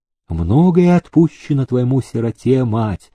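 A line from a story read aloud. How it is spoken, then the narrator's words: Gentle. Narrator (Russian): ласково сказал иерей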